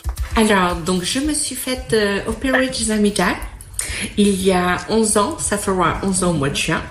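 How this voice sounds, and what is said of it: French spoken with English accent. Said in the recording (French): “avec un accent anglais”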